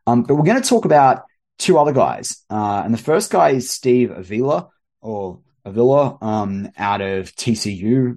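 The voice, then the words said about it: Speaks with a noticeable accent. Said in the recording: “you've got my accent there to deal with”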